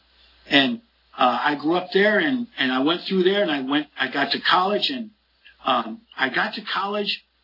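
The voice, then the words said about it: Upstate New York Mohawk Valley twang. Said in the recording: “our accent was a totally different thing, as you can tell by listening to me right now, as I still have what we call a Mohawk Valley twang.”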